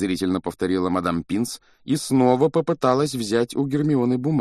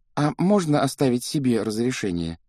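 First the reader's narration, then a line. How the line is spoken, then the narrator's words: Timid question. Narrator (Russian): робко спросила Гермиона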